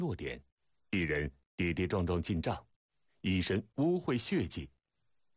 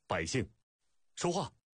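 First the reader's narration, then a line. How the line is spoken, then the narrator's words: Furious shout. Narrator (Chinese): 楚威王大事暴躁，怒喝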